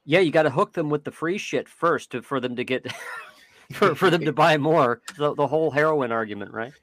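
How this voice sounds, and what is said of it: Exaggerated redneck pronunciation. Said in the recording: “talking like my redneck ancestors there”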